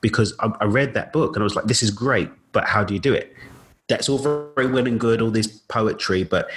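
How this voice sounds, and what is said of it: Usual voice. Nothing is said of it.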